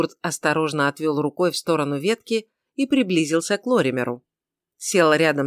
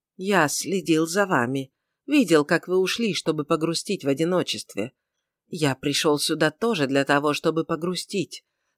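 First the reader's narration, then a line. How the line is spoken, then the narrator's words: Soft, sympathetic. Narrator (Russian): сказал карлик мягко и с сочувствием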